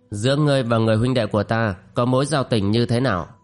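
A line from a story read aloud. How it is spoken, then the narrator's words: Cold. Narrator (Vietnamese): Kim Hoa phu nhân lạnh lùng nói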